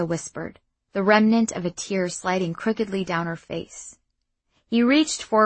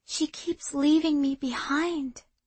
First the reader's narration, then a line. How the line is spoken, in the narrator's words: Irsa said softly